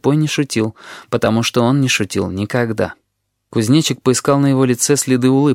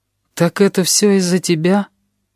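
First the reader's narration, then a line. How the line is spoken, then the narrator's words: Grasshopper's dejected question. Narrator (Russian): упавшим голосом спросил кузнечик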